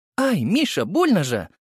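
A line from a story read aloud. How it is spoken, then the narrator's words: Pained cry, mother. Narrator (Russian): вскрикнула мама от того, что я придавил ее грудь деснами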